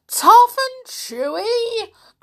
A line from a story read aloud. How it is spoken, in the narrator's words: cried the enormous crocodile